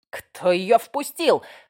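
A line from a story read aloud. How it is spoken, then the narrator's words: Roaring. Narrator (Russian): взревел он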